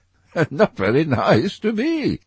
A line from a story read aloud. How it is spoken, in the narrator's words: answered Dorian, laughing